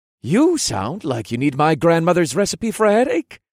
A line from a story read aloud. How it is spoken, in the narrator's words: the young man observed in a cheerful voice